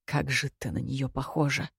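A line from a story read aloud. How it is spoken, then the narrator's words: Mumbled. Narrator (Russian): пробормотал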